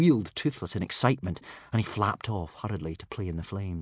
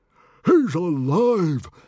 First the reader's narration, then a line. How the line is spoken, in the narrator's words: bellowed Stoic the Vast in astonished delight